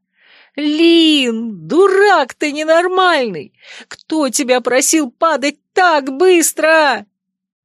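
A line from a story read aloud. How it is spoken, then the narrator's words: Shouted, female. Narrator (Russian): Больше ничего крикнуть я уже не успела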